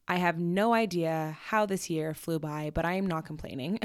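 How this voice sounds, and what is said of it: Groggy, just-woken-up voice. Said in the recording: “my voice is a little groggy sounding, it's because it's 10 a.m. and I'm not even halfway through my coffee”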